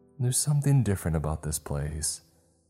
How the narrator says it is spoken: she said in an airy voice

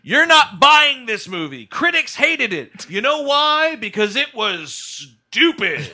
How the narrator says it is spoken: the woman shouted, not just uttered, shouted

